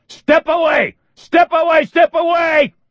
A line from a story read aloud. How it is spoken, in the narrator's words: Reacher screamed